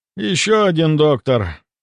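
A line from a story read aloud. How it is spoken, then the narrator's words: Heavy sigh, merchant. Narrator (Russian): Купец тяжело вздохнул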